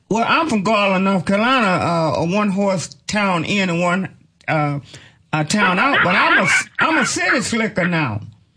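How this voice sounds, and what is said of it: Southern country accent. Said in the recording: “I still got a country accent”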